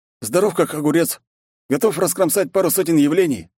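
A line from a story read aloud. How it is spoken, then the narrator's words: Cheerful reply. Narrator (Russian): радостно ответил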